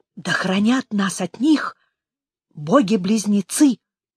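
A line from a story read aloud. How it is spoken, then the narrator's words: Whisper. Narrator (Russian): прошептала Тхар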